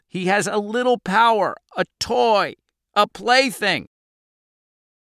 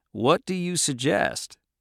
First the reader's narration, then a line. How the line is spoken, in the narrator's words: Cap said calmly